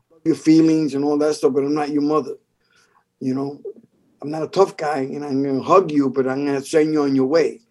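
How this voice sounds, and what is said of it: New York Bronx accent. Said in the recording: “Maybe because of my accent... you sound like Joe Pesci”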